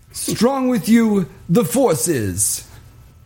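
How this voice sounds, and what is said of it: Imitates a character's voice. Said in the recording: “my impression of Rodney Dangerfield as Yoda”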